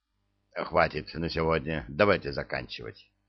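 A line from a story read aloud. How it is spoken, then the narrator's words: Grumbled mutter. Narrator (Russian): буркнул то ли Сомову, то ли ему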